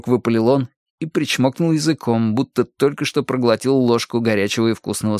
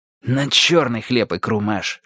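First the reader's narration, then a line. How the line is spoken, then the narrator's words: Hissing elderly voices. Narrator (Russian): шипели между собой престарелые поклонники рок-легенды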